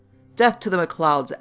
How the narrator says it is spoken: Alan exclaimed again

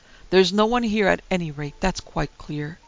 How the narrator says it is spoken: he exclaimed aloud

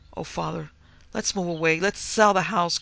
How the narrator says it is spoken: cried Adriana in a panic-stricken tone

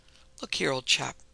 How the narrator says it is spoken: said in a cheery, kindly way

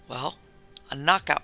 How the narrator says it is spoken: panted Corrier

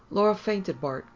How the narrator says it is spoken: Cagliostro said soothingly

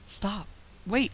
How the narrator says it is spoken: he cried in his intense excitement

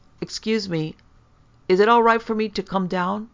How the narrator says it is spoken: He called out

